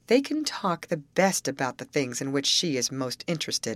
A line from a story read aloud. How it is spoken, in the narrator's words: I replied